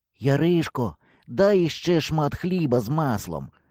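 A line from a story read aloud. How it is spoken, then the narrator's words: Quiet, muffled voice. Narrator (Ukrainian): сказав я тихим глухим голосом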